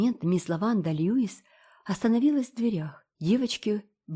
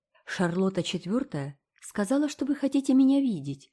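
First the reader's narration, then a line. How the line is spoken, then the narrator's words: Pleasant female voice. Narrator (Russian): сказала она приятным голосом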